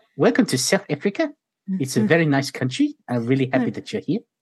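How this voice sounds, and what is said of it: Put-on South African accent. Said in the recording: “I can do a lot of accents, but I guess Australians... I can do South African a lot better”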